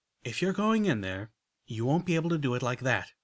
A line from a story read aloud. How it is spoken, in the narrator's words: said